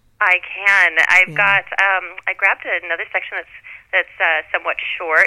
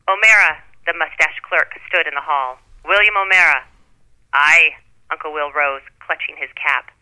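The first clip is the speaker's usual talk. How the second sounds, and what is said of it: Put-on Irish brogue. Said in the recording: “you'll have to excuse my Irish brogue.”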